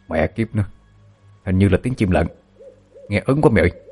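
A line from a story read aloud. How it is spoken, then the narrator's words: Frightened whisper. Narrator (Vietnamese): một trong hai gã thanh niên thì thào với nhau đầy sợ hãi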